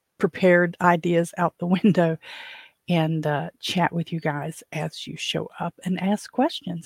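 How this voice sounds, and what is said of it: Slightly hoarse voice. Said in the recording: “I'm a little hoarse this morning.”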